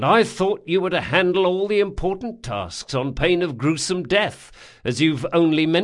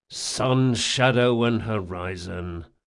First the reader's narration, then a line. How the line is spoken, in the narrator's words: muttered Locke